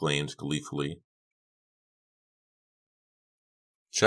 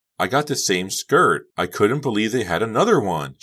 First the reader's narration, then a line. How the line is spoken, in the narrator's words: she beamed happily at Becca